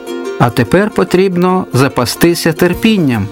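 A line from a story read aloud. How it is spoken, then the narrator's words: Plain. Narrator (Ukrainian): відповідає Господь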